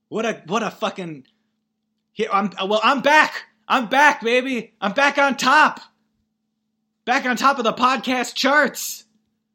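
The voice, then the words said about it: Yelling excitedly. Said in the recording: “I'll try to stop yelling.”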